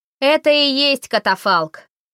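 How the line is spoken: Shouted reply. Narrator (Russian): крикнула она в ответ

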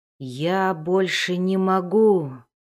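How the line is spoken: Groan. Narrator (Russian): простонал он

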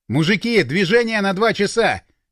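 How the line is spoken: Shout. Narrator (Russian): крикнул

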